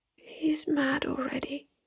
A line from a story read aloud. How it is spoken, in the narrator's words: her son whispered through the tears